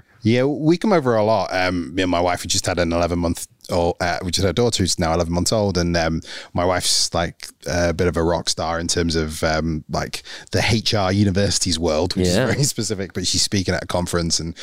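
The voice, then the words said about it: Northern English Manchester accent. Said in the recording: “I'm originally from Manchester. I live in Nottingham at the moment. ... See if people can get past the accent”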